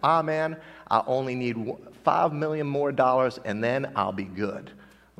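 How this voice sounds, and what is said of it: Imitated southern accent. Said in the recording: “he had a southern accent.”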